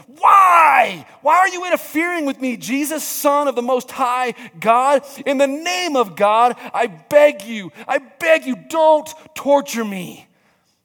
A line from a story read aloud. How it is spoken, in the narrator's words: With a shriek, he screamed